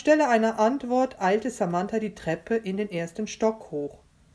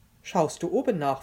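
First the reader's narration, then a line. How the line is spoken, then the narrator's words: Plain. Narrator (German): fragte Joel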